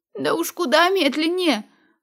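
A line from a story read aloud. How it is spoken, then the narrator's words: Choked wheeze. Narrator (Russian): прохрипела я, удушаемая воротом рубашки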